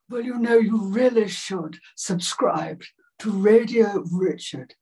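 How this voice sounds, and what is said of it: Margaret Thatcher impression. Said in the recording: “I did Thatcher, Margaret Thatcher ... Margaret Thatcher's voice was like that”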